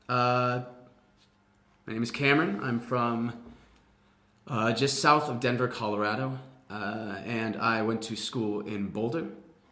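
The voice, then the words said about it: Middle American accent. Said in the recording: “I consider my accent to be just middle American, middle ground.”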